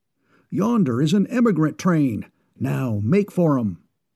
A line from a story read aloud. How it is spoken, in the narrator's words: the trapper exclaimed